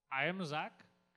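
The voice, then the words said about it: Put-on Indian accent. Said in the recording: “tells me I'm ... with an Indian accent”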